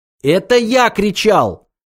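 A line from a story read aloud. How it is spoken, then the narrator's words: Shouted. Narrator (Russian): закричал Артур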